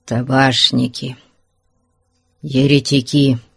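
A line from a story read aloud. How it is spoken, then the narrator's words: Muttered through clenched teeth. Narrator (Russian): сквозь зубы процедил паломник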